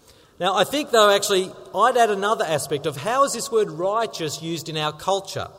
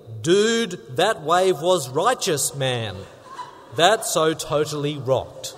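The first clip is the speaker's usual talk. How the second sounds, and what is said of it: Attempted surfer-dude accent. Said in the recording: “Often associated with surfers. ... I don't think I got the accent right”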